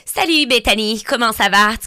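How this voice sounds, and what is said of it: Put-on France French dubbing accent. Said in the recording (French): “je me l'ajoute zéro à la française, à part quand je fais des doublages ... des doublages, là, genre des POV de films américains”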